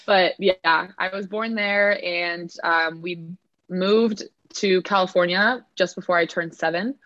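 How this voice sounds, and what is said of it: American Californian accent. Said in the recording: “You can't tell from my accent, obviously ... raised in California, hence my accent”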